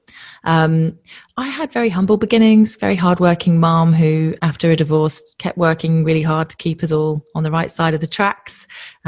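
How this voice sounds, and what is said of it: Non-Australian English accent. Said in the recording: “you can probably tell from my accent that I'm not Australian born”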